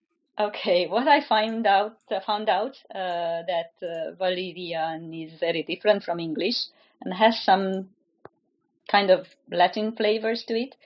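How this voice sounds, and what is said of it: Foreign accent speaking English. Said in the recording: “As for my own accent, yeah, you know, another foreigner using the common tongue.”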